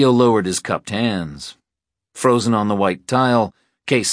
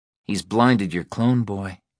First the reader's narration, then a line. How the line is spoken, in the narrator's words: Molly said flatly